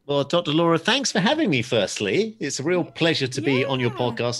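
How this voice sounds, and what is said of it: English accent. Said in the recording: “As you might be able to tell from my accent, I'm from a little place called England.”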